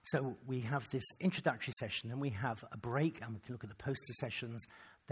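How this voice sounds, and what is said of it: Hoarse, strained, fading voice. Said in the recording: “losing my voice ... I talked for kind of all day ... Talked too much”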